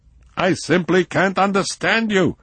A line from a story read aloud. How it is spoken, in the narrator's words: he shouted